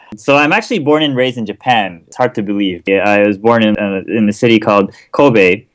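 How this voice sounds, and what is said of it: Clear American English accent. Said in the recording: “you speak with a very clear American accent ... that's not a normal Japanese speaker”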